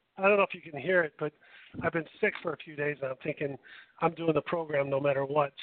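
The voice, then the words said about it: Hoarse, sick-sounding voice. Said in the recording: “this is not what my voice normally sounds like. I'm real hoarse.”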